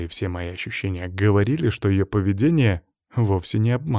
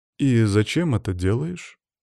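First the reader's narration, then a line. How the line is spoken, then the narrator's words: Calm question. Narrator (Russian): спокойно спросил я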